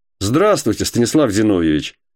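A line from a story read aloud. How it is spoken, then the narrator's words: Joyful greeting. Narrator (Russian): сказал он радостно, будто 100 лет не разговаривали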